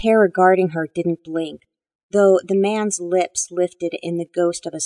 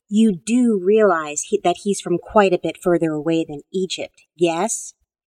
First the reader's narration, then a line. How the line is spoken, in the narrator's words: Rachel snorted